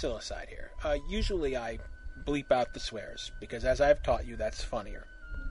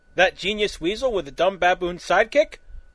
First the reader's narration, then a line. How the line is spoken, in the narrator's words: Holy Sid exclaimed